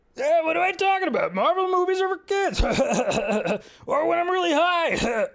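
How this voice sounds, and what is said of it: Imitates another person's voice. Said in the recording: “my Seth Rogen impression.”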